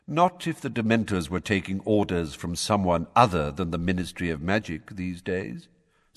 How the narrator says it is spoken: said Dumbledore calmly

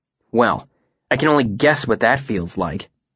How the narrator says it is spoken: Sim said bitterly

